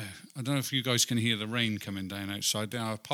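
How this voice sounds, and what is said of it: Usual voice. Nothing is said of it.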